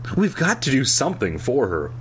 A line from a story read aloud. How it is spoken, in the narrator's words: he said urgently